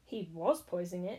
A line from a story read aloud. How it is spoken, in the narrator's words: snarled the woman